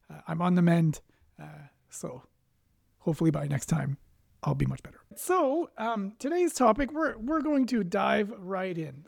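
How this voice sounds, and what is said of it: Raspy, slightly off voice. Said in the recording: “my voice is a little off this week. I've been fighting off a bug ... please excuse my raspy voice”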